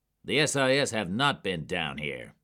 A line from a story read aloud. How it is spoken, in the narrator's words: Jack snapped